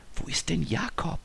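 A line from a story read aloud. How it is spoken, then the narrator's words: Whisper. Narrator (German): flüsterte Lisa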